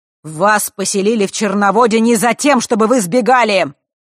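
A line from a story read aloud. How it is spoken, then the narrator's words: Booming queen's voice. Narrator (Russian): Вновь прогремел голос Черной Королевы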